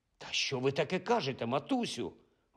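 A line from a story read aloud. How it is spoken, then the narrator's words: Shepherd's exclamation. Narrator (Ukrainian): вигукнув пастух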